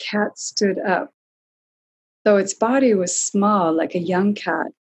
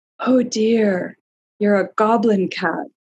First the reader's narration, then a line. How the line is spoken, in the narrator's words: she breathed